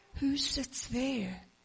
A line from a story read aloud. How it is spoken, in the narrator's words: whispered Judy